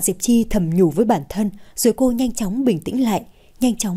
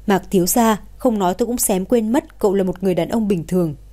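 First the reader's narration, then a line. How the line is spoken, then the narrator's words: Sarcastic. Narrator (Vietnamese): Hạ Diệp Chi nói bằng giọng châm biếm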